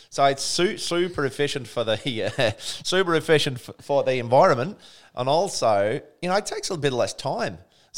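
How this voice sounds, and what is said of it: Put-on Australian accent. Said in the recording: “You sounded Australian then. ... Do this link in Australian ... What, my Australian?”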